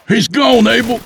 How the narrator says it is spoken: Tep cried over the noise

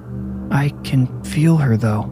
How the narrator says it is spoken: Roland whispered, but he sounded unsure

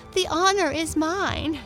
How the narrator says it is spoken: laughed Lotta

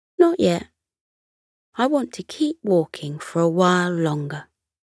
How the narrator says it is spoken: Camo replied

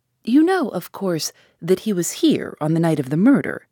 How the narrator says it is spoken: he asked

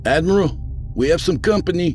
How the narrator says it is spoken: the first mate called out

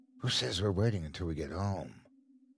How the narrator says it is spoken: whispered into his ear

